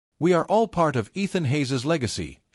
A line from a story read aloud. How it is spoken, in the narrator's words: she said, her voice steady and filled with conviction